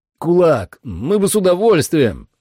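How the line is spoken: Shouting over loud music. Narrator (Russian): крикнул я, пытаясь переорать Static X

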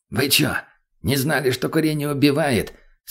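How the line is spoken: Hissing whisper. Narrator (Russian): Свистящим шепотом произнес он

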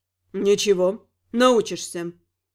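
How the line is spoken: Stern encouragement. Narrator (Russian): ободрил его Гал таким суровым тоном

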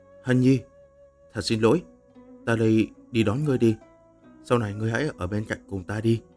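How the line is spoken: Gentle, tender. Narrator (Vietnamese): Lăng Tiếu nhẹ nhàng nói

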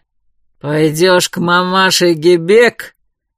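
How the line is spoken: Growled. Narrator (Russian): зарычал Грубер

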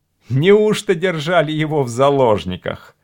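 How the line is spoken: Laughing. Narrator (Russian): рассмеялся Гард

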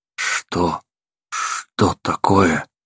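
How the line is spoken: Barely audible wheeze. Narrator (Russian): едва просипел

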